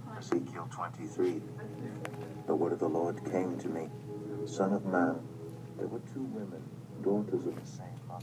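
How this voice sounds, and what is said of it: British accent. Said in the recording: “that same guy with the beautiful British accent”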